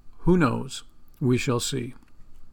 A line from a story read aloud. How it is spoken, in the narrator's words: Calmly, the farmer answered